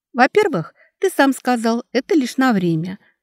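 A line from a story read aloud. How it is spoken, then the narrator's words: Calm. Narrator (Russian): спокойно ответила девушка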